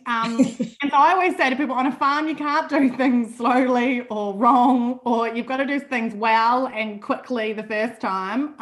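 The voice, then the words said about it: New Zealand accent. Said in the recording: “I grew up on a farm in New Zealand, in case you can't notice the accent.”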